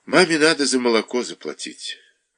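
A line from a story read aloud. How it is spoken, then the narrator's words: With a sigh. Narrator (Russian): Наташа сказала, вздохнув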